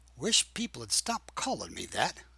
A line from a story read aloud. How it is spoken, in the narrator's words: I said softly